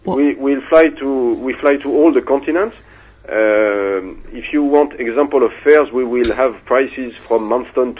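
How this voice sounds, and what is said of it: Slight foreign accent. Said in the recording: “Did you notice that I had an accent ... Un petit peu”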